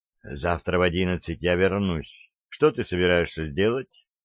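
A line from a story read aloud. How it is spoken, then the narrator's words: Quiet speech. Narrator (Russian): Анна тихо сказала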